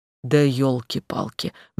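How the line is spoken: Sighing. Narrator (Russian): вздохнула Валерия

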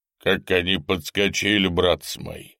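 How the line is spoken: Deep bass voice. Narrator (Russian): говорил басом один высокий солдат

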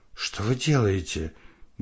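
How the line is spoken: Loud whisper. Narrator (Russian): громко прошептала Вика

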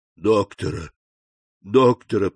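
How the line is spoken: Moaning. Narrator (Russian): простонал Кадрус

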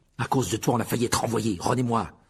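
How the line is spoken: Fierce tone. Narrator (French): dit-il d'un ton féroce

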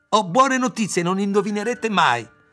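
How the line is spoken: Frantic excited shout. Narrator (Italian): come se non stesse più in sé, batté le mani e gridò

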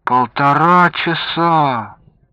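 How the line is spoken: Boy's disappointed drawl. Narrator (Russian): разочарованно протянул мальчик

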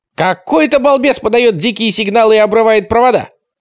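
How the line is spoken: Ringing, sharp shout over phone. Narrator (Russian): кричал в трубке звонкий и резкий голос

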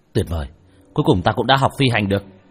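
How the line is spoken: Excited shout. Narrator (Vietnamese): Tần Hạo lúc này vô cùng hưng phấn, hắn hét lên một tiếng

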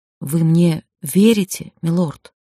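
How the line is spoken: Dull, strained voice. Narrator (Russian): глухо выдавил

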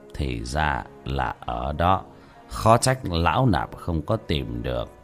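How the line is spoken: Muttering. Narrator (Vietnamese): Bất Táng Hòa Thượng lẩm bẩm

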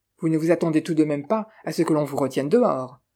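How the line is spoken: Curt question. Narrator (French): demanda sèchement le comte

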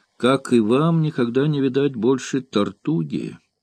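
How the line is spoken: Sad. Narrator (Russian): печально ответил гамбуржец

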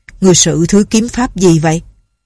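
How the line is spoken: Old man's cold question. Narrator (Vietnamese): Thiên Ất, lão lạnh lùng hỏi

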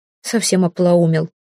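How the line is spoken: Snorted. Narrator (Russian): фыркнула одна из них

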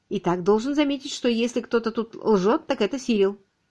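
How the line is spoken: Reasoned tone. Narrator (Russian): Ричард сказал рассудительным тоном

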